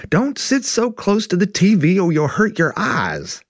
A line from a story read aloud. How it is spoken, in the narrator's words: your mom yelled from the other room